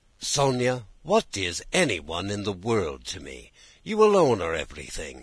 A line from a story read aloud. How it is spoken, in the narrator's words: said Nicholas